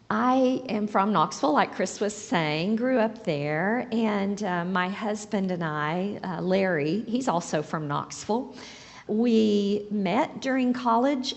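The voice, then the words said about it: Hoarse voice. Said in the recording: “Please excuse the hoarseness... I'm still a little sneezy and hoarse from that”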